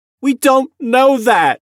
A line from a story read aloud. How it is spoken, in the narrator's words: Jamie cried